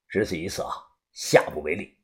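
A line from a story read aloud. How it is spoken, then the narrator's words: Cold. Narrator (Chinese): 他冷声的说道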